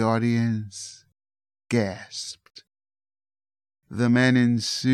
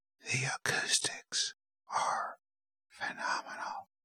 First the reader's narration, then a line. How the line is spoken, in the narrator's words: whispered